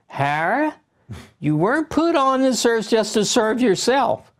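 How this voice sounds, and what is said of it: Imitated Richmond, Virginia accent. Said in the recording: “your mom's accent. Where was she from? ... Richmond, Virginia.”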